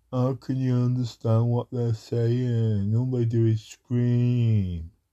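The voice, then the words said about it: Imitates another person's voice. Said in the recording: “my educated impression of someone”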